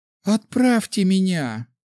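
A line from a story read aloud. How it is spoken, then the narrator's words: Pleading. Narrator (Russian): взмолилась Наталья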